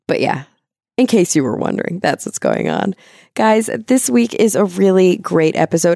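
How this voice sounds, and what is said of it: Slightly hoarse, strained voice. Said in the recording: “I think I'm losing my voice a little bit”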